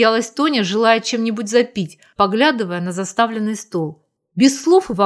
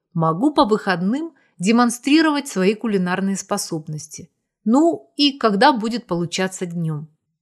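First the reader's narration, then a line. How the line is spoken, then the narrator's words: Calm suggestion. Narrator (Russian): Зорин спокойно предложил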